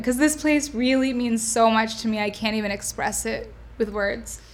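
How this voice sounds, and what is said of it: Emotional, choked-up voice. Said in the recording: “getting choked up a little bit”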